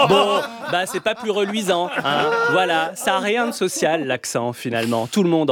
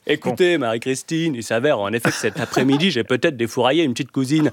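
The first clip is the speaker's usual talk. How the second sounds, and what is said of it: Posh Versailles accent, plummy. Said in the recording (French): “à Versailles... ils ont un accent, d'ailleurs, avec leurs patates chaudes de consanguin dans la bouche”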